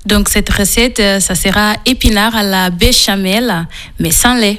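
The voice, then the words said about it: Slight Portuguese accent in French. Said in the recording (French): “vous avez un petit accent ... Il vient du Portugal.”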